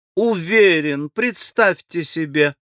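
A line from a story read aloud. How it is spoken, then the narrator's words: Blushing, happy little laugh. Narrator (Russian): она краснея ужасно и смеясь маленьким счастливым смешком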